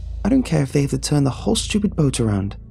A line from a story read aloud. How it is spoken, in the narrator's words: I kept exclaiming